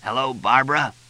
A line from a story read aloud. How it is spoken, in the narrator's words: Fletch croaked into the phone